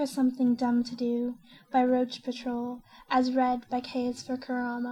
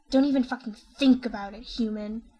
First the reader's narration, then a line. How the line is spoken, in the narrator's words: snarls, all pint-sized alpha male wannabe